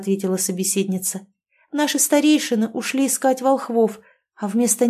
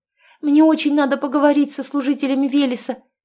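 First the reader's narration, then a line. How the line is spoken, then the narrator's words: Exclaimed. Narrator (Russian): воскликнула она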